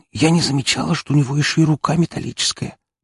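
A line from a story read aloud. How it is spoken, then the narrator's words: Whisper. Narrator (Russian): прошептала Фокси в закрытом режиме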